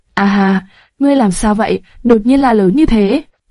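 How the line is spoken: Amused, smiling voice. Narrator (Vietnamese): Lạc Tần bị phản ứng này của hắn làm cho bật cười, từ giọng nói có thể cảm nhận được nụ cười ấy

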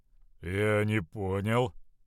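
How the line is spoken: Mutter. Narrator (Russian): буркнул Равус

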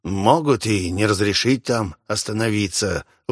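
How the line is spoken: Gloomy balding merchant. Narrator (Russian): вновь мрачно сказал плешивый торговец

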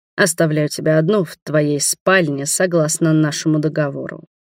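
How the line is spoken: Cold rumbling voice. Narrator (Russian): пророкотал он холодно

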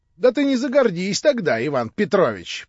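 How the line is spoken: Laughing. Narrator (Russian): прибавила, смеясь, Анна Андреевна

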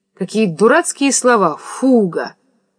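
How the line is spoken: Indistinct, still angry. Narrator (Russian): Невнятно и все еще сердито говорит Варенька

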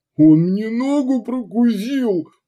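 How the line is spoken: Miserable moan. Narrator (Russian): простонал несчастный трубка

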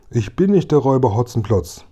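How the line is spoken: Voice calling out. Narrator (German): rief die Stimme

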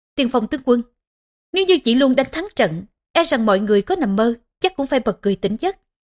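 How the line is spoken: Sneering. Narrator (Vietnamese): chủ tướng Hữu Quân cười khẩy mà nói

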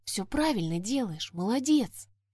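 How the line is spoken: Gentle whisper. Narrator (Russian): кто-то невидимый шепнул

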